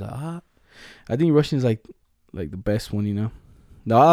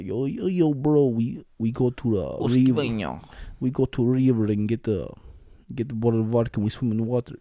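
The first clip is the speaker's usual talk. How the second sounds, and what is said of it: Fake Russian accent. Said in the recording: “Russians be like ... I like their accent. It's funny.”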